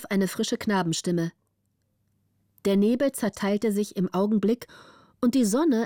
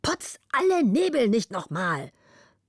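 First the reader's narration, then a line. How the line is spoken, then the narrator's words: Angry shout. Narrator (German): gleich zornig wieder rief er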